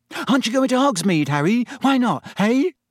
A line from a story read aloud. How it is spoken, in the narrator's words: looked eagerly